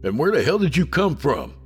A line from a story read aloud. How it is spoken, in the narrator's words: I barked loudly